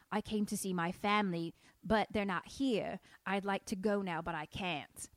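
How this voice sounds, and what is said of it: Light Cockney accent drifting Southern. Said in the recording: “sometimes your Cockney goes into Southern ... It's when I don't fully commit. Like, I don't fully want to do the accent, but I lightly want to do it.”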